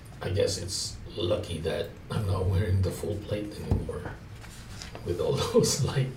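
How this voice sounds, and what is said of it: Whispering. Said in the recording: “kind of like in a whisper.”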